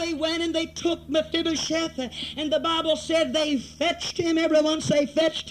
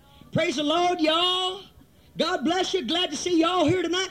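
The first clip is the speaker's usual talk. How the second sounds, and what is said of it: Put-on southern accent. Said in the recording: “they had a little southern accent ... even old Paul had a little bit of a southern accent”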